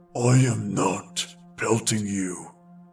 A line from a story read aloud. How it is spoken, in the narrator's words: answered the first, growling